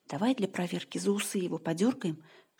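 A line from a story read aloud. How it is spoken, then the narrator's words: Whispered suggestion. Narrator (Russian): шепотом предложил Саша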